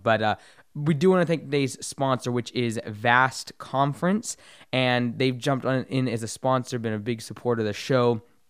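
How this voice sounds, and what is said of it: Hoarse, strained voice. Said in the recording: “sorry for my voice. It's a little bit shot... forgive the bad throat quality and sound”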